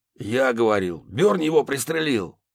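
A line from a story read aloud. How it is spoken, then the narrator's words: Barking. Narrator (Russian): рявкнул О'Салливан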